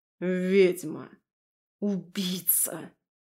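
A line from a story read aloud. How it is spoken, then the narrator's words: Hoarse rasp, woman. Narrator (Russian): прохрипела женщина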